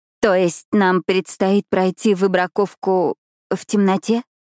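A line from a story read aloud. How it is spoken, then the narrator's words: Uncertain question. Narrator (Russian): неуверенно спрашивает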